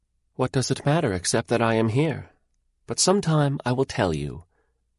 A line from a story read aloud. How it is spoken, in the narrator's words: she answered calmly